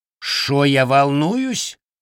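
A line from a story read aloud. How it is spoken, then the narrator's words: Indignant question. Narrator (Russian): возмущенно переспросил Равин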